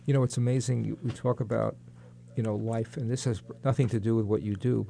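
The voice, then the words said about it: New York accent. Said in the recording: “I'm from New York, as you can tell from my accent.”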